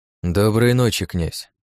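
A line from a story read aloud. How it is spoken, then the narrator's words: Dry. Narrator (Russian): сухо проговорил я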